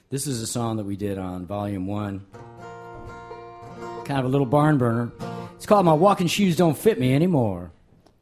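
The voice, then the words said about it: Announcer-style radio voice. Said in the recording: “Your radio voice came in right there.”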